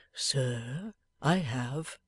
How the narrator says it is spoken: replied the old man in a low voice

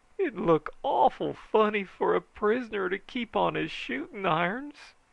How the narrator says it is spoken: he pleaded

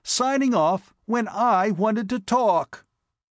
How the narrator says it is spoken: he exclaimed

